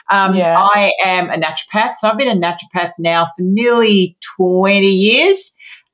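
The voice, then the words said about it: Australian accent. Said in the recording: “I have an accent ... I'm from Australia, mm-hmm. from Sydney, Australia.”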